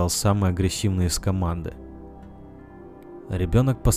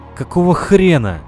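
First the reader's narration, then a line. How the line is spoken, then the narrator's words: Two frightened shouting voices. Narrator (Russian): Со страхом в голосе крикнули сразу оба из парней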